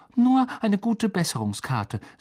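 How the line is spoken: Hasty. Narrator (German): sagte Hermine hastig

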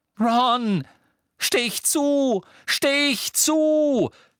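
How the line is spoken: Shouted. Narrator (German): schrie Harry

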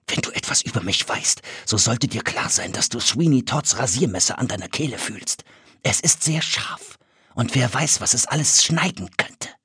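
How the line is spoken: Menacing whisper. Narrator (German): flüsterte

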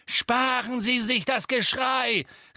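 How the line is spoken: Calling out. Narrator (German): rief Harry

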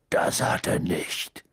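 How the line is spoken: Growling. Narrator (German): knurrte er Hermine an

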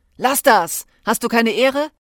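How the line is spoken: Neighbor speaking loudly. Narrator (German): die Stimme eines Nachbarn, der laut sagte

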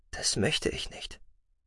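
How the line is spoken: Quiet female voice. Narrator (German): sagte sie leise

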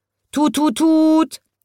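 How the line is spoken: Wobbly car calling. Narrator (German): ruft das wackelige Auto

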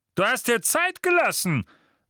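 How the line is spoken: Thundering. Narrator (German): donnerte

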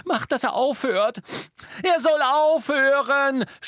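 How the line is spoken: Screaming. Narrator (German): schrie Hermine

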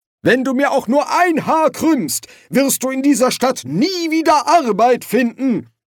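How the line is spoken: Angry shout. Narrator (German): rief Silberfisch aufgebracht

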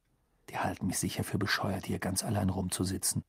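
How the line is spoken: Murmur. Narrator (German): murmelte

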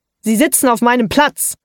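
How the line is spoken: Sharp thundering voice. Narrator (German): donnert es mit scharfer Stimme

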